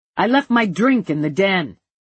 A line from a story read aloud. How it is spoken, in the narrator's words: Jefferson bellowed